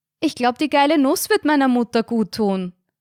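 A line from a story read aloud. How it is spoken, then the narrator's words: Loud answer. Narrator (German): antwortete Carina lautstark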